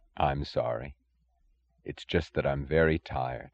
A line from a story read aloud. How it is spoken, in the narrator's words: he added, his voice lifeless